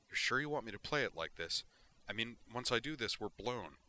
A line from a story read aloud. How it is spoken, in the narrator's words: nervously, and said